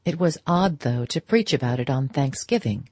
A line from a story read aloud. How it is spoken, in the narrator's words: her hostess dryly rejoined